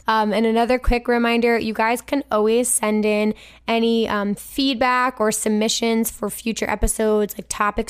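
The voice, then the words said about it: Hoarse, failing voice. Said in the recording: “Ooh, that did not sound good. I'm sorry, my voice just died.”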